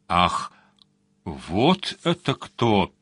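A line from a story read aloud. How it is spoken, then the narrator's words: Muttered through teeth. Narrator (Russian): сквозь зубы пробормотал Сварог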